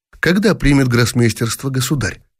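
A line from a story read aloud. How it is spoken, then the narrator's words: Plain. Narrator (Russian): спросил граф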